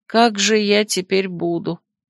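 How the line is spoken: Sad question. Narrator (Russian): печально спросила я

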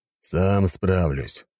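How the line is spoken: Displeased grumble. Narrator (Russian): недовольно проворчал в ответ вепрь

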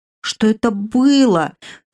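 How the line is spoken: Moaning. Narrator (Russian): простонала новоиспеченная единорожка

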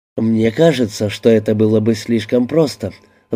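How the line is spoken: Sigh. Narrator (Russian): вздохнул Карелла

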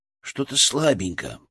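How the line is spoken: Mumble. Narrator (Russian): пробормотал Коля

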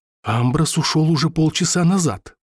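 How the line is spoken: Whisper. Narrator (Russian): прошептал я Тейв

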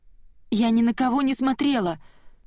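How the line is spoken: Thin little voice. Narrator (Russian): произносит Хизер тоненьким голоском

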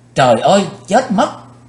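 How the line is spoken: Panicked scream. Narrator (Vietnamese): Quỳnh Dao chợt hoảng hốt hét lên

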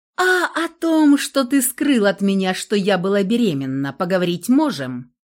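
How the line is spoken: Harsh mocking young woman. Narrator (Russian): Голос девушки звучал жестко и насмешливо

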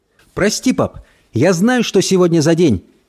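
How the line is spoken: Shout. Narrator (Russian): крикнула Эльса

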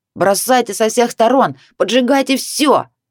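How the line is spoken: Eager shout. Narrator (Russian): прокричал Витор, предвкушая дальнейшие события

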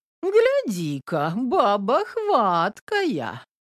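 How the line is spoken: Envious drawl. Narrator (Russian): Завистливо протянула Домна

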